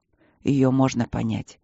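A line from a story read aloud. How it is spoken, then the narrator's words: Calm reply. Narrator (Russian): спокойно ответил Нори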